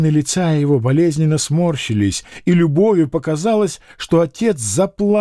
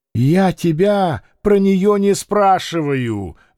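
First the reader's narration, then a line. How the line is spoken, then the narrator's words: Angry shout. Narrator (Russian): злобно закричал Маякин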